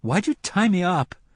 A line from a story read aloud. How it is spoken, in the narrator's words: asked indignantly